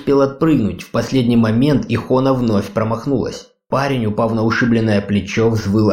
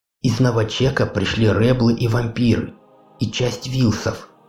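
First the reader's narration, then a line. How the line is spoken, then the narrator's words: Girl's admiring whisper. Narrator (Russian): восхищенно прошептала девушка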